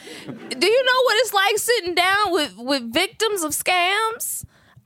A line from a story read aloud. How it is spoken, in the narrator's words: I shout out to the journalists